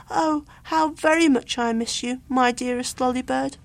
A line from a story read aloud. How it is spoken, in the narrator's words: crying